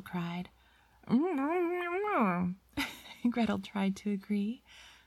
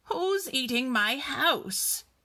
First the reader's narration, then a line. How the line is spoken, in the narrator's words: bellowed